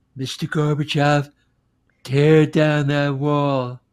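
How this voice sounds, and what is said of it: Imitates another person's voice. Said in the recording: “That was my Reagan impression ... Spot on ... Sounded like a Trump”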